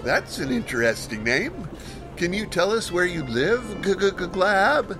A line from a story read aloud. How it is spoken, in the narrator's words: he mockingly inquired